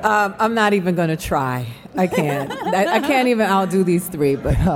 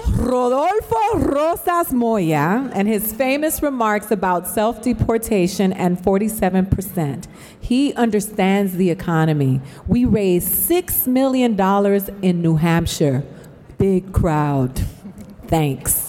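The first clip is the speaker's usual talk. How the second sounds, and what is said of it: Put-on Latina accent. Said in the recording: “my Latina accent”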